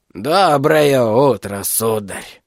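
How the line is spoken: Old man, husky voice. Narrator (Russian): сипло проговорил старик

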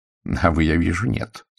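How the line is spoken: Dry tone. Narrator (Russian): сухо сказал Пуаро

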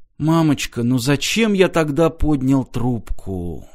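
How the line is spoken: Whisper. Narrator (Russian): прошептал Мартин

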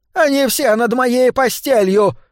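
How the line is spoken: Woman shouting out. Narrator (Russian): выкрикнула она

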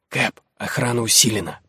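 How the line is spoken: Whispering. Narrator (Russian): прошептал один

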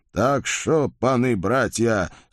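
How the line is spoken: Hissed through teeth. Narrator (Russian): сквозь зубы прошипел Байстрюк

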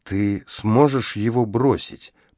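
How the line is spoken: Whisper. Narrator (Russian): прошептал Ричард

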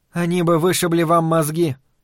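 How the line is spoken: Even-voiced interjection. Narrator (Russian): ровным голосом вставила Дейна Джергенс

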